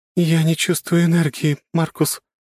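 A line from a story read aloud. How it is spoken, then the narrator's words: Trembling voice. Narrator (Russian): дрогнувшим голосом сказала юная княгиня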